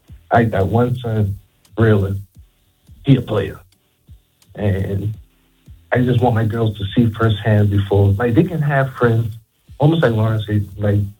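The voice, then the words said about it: Whispering, hushed voice. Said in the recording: “Why are you whispering in Charleston this morning? ... Why are you whispering”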